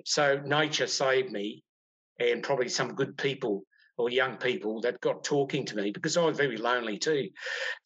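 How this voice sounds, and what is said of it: Australian accent. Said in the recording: “they heard my accent. ... I was an Australian”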